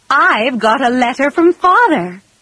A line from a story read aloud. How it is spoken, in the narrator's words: cried Mrs